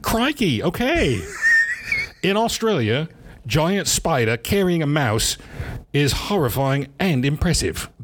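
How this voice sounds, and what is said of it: Bad put-on Australian accent. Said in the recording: “that's a bad Australian accent ... I was ... it was pretty bad”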